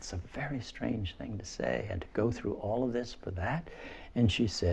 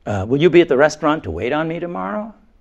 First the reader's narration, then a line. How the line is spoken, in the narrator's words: he blurts